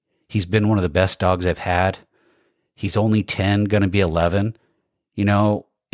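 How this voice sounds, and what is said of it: Emotional, moved voice. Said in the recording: “I'm getting a little emotional.”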